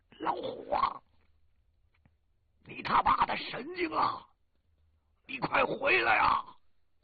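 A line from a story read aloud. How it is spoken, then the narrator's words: Loud shouting. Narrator (Chinese): 胖子大声喊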